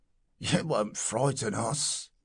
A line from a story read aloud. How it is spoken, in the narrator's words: said the commercial with a husky laugh